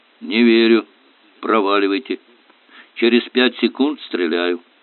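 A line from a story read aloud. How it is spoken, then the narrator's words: Hoarse voice. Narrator (Russian): Потом снова услышали хриплый голос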